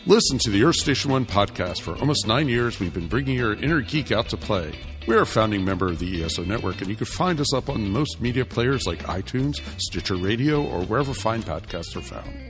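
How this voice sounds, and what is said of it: Put-on announcer voice. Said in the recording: “I guess I could just use my announcer voice.”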